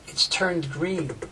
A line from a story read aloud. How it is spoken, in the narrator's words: I whispered to Lorca